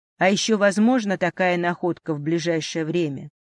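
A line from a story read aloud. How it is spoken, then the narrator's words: Stern question. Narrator (Russian): строго спросил Владимир Иванович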